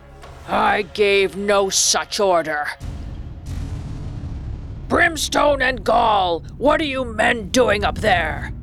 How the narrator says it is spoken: Hook's voice thundered over the water

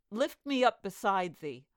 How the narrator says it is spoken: cried

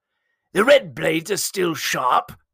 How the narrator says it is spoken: Janat spat impatiently from the shadows

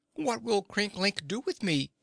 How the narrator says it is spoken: asked anxiously

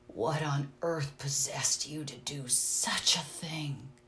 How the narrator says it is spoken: he whispered, with the awe of genuine terror in his voice

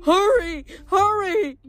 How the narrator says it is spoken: satyr guide nervously yelling

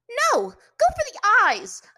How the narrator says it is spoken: Azula shouted to her brother

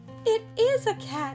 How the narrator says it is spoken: cried Melissa

